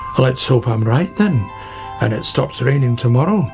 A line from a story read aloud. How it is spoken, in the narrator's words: said Badger